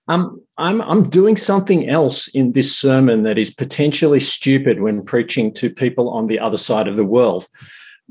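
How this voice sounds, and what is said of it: Australian accent. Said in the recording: “acclimatise your ears to my accent... if you wanted another Glasgow preacher, you wouldn't have invited an Australian”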